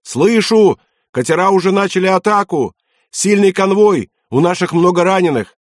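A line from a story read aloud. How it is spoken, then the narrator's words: Shouted. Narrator (Russian): прокричал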